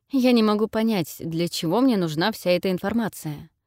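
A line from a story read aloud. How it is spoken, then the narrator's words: Tired question. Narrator (Russian): спросил устало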